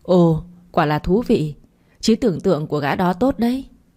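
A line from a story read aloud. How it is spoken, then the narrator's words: Bursting into laughter. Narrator (Vietnamese): Khiêm cười phá lên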